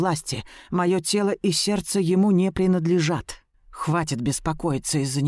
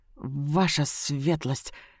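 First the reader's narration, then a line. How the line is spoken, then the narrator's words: Stammering mutter. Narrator (Russian): заикаясь, бормочу я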